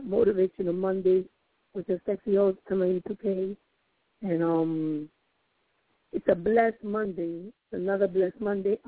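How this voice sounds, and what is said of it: Hoarse, lost voice. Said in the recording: “Excuse my voice. I've lost it”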